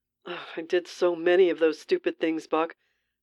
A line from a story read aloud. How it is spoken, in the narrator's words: Steve groaned